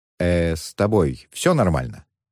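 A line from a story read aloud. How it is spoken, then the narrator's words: Conciliatory question. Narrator (Russian): примирительным тоном спросил Муан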